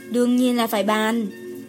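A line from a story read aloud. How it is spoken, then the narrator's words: Sighing. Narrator (Vietnamese): Đồ Nhiễm thở dài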